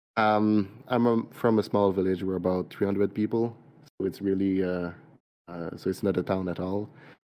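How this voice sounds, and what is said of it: French-Canadian accent. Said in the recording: “I'm from Quebec, so I'm a French-Canadian. Yep. That's where the accent is from.”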